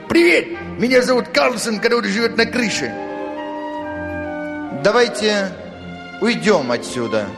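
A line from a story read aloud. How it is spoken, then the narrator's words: Woman's whisper. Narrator (Russian): прошептала мама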